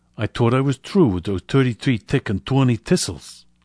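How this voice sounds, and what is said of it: Strong London accent, F for TH. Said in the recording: “someone with a strong London accent might pronounce ... using F and D sounds. I'll demonstrate.”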